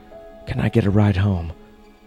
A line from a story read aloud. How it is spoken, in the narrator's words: I asked